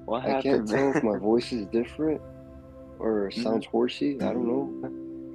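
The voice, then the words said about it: Congested, stuffy-nosed sick voice. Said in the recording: “We can tell that you're sick already, man. ... it does sound kind of like runny ... like when someone has like a sinus infection ... Stuffed on the nose.”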